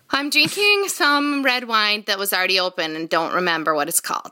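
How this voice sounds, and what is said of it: Upper Midwest American accent. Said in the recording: “her natural accent came out far more right there ... I can't deny that Midwest flavor ... upper Midwest. Upper Midwest.”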